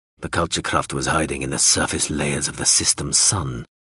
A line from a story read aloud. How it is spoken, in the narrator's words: Zorolundra said bitterly, more to himself than to Hawser